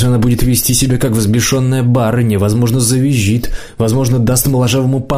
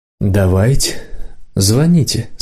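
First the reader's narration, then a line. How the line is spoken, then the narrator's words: Through gritted teeth. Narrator (Russian): сказал моложавый сквозь зубы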